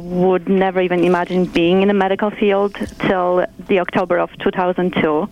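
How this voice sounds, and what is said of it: Polish accent. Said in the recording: “accent is Polish yes. ... it's beautiful”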